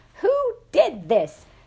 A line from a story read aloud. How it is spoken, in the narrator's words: she was shrieking